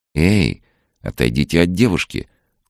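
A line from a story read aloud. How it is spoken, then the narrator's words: Calm, serious command. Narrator (Russian): очень спокойно и серьезно приказала Соня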